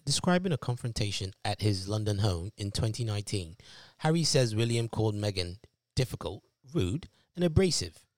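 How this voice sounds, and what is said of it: Put-on British accent. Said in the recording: “I'm going to say it in my best British accent.”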